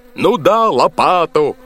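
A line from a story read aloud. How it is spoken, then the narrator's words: Yelled. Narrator (Russian): заорал боцман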